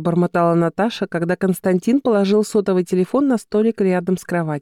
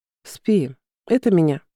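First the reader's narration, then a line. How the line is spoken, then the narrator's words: Calm reply. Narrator (Russian): спокойно ответил Константин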